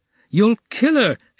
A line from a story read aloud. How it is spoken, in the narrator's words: shouted the third